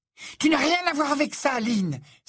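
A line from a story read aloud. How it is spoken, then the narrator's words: Exclaiming. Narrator (French): s'exclama Cathy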